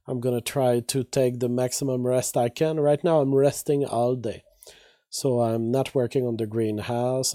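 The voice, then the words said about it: Weak, strained voice. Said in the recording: “As you know and as you can hear, my voice is still weak ... hoping that my voice will get corrected ... with just my normal voice”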